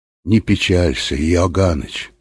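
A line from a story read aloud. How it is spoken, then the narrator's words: Quiet. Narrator (Russian): сказал он тихо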